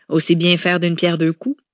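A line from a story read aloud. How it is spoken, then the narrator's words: Plain. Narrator (French): lui avait-il dit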